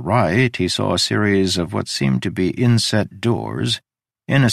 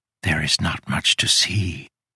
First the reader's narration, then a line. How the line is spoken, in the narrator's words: she whispered